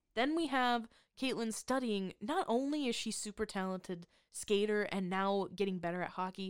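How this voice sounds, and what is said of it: Usual voice. Nothing is said of it.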